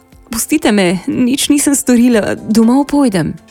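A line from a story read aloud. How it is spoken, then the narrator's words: Pleading. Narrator (Slovenian): Marenka je prosila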